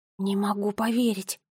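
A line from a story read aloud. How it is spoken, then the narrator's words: Muttered. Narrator (Russian): пробормотала Нола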